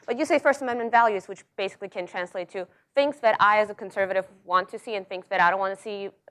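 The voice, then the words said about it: Russian-accented English. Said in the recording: “that's my accent. ... I was born and I grew up in Russia”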